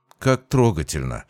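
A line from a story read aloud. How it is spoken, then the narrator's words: Mocking. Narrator (Russian): насмешливо произнес я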